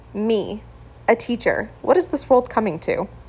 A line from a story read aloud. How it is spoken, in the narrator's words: laughed